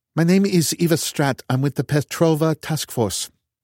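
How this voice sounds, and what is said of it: Slight European accent. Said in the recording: “She had a slight accent, something European. I couldn't quite put my finger on it.”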